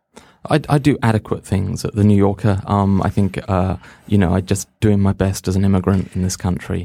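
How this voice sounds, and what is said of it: English accent. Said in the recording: “as we can tell from your accent, you're English.”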